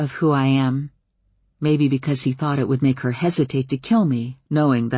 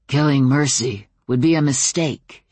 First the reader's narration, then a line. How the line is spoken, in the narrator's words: he growled